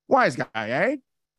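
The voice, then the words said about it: Put-on 1920s wise guy accent. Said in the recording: “I'm gonna try this my best. This is my best, uh, best wise guy accent.”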